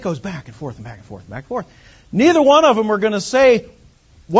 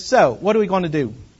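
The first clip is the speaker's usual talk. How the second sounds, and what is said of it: Put-on British accent. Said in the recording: “they have a British accent.”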